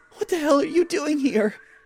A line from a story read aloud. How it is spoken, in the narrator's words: Jim said in a gasping voice